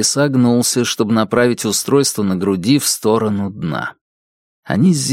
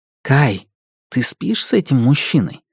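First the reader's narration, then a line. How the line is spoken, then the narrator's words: Whisper in ear. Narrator (Russian): прошептал в его ухе Дайн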